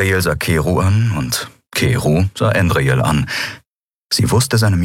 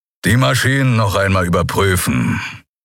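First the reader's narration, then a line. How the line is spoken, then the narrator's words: Growling. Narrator (German): knurrte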